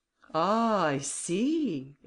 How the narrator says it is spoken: exclaimed Grimaudan

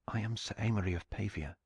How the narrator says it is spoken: he whispered

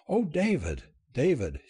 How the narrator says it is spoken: she sobbed

